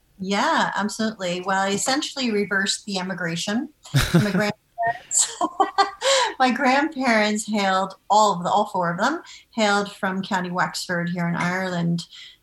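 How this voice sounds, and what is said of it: American accent. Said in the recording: “we can hear from your American accent”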